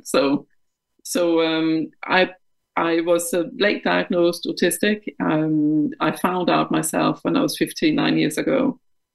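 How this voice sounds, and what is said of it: Danish accent in English. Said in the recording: “I'm Danish of uh, of origin ... I never have lost my accent”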